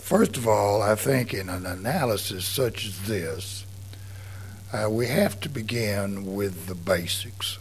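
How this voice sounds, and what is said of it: Congested, strange-sounding voice. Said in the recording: “I did have a sinus attack this morning, so my voice is a little strange. It's not my normal voice”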